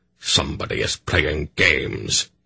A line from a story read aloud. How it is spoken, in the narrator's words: he retorted angrily